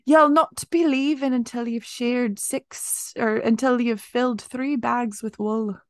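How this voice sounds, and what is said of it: Put-on Irish accent, passable. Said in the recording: “That's my best Irish accent. ... That was okay. It was almost as good as my German accent, but not quite.”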